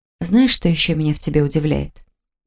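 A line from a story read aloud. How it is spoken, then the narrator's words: Mysterious whisper. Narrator (Russian): Таинственным шепотом поинтересовалась я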